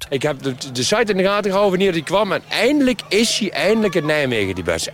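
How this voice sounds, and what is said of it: Strong Nijmegen Dutch accent. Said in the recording (Dutch): “Echt Nimwegs accent.”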